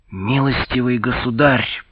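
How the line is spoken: Agitated lisping hiss. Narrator (Russian): прошипел, шепеляве от волнения

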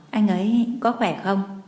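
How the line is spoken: Hoarse, soft question. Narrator (Vietnamese): Giọng nói của Ân Thiên Thiên khàn khàn, cô khẽ hỏi

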